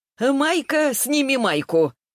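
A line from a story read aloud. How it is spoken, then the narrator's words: Gleeful childlike blurt. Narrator (Russian): выдала Елизавета Степановна, радостно хлопнув в ладоши, будто ей было 5 лет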